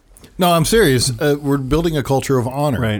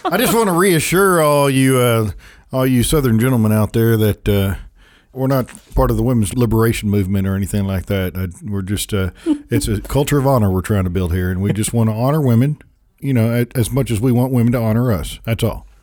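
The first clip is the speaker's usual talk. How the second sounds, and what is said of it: Put-on Southern accent. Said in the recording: “That accent comes out nicely with paired with your sweet tea there”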